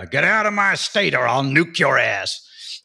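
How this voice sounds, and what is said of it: Put-on American accent. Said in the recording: “give us your best American accent ... that's pretty good”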